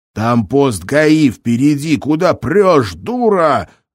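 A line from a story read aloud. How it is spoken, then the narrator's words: Sudden yell. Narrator (Russian): заорал вдруг ящик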